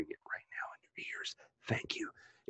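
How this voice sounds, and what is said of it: Whispering. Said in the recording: “I'm whispering”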